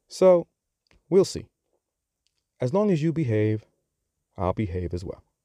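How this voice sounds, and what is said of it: New York accent. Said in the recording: “you have picked up on my accent. So, yes, I am from New York.”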